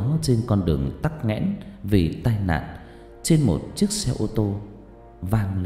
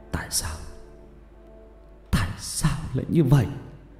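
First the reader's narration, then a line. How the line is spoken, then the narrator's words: Grief-stricken, tearful question. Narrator (Vietnamese): Kiên ôm cái xác lạnh lẽo của con, mếu máo hỏi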